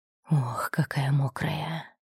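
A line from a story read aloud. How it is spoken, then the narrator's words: Breathless exhale. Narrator (Russian): выдохнул он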